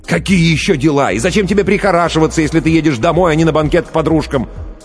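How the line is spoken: Nearly shouting. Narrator (Russian): Ллойд почти кричал

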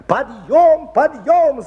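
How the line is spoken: Woman shouting. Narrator (Russian): закричала воспитательница

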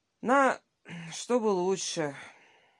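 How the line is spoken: Sighing. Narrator (Russian): вздохнул он

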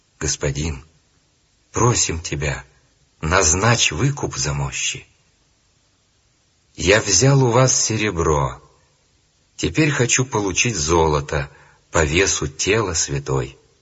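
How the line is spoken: Plain. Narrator (Russian): ответил эмир

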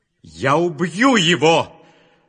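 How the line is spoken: Shouting. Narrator (Russian): закричал Исав

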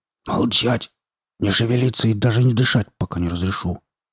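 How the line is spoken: Furious whisper. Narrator (Russian): яростным шепотом ответил я

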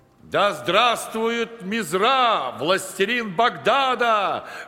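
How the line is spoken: Loud group shouting. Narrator (Russian): громко выкрикивали его приближенные

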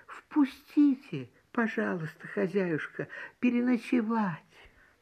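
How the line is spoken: Small bird's plaintive voice. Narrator (Russian): маленькая береговушка просит жалобным голоском

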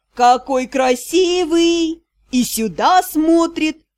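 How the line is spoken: Sudden drawl, female traveler. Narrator (Russian): Вдруг протянула моя случайная попутчица

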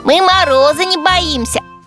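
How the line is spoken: Squeaky chorus. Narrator (Russian): Пингвины пропищали

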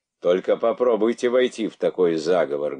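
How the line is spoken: Menacing. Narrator (Russian): грозно отвечал

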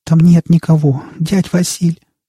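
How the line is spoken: Trembling, unsure. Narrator (Russian): дрожащим голосом сказала Настя, пытаясь и себя убедить в этом

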